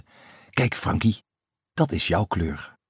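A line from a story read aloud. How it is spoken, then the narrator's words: Whispering. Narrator (Dutch): fluisterde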